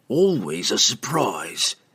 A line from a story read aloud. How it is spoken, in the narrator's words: the assassin admitted grimly